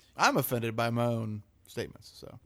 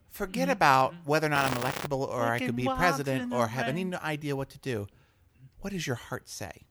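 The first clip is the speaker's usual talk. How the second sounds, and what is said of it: Imitates another person's voice. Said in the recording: “my Elizabeth Warren impersonation.”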